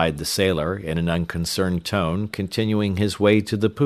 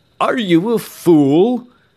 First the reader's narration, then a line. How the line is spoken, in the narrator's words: cried Mr